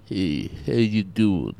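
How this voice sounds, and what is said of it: Imitates another person's voice. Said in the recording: “Is this someone trying to do a Marlon Brando impression?”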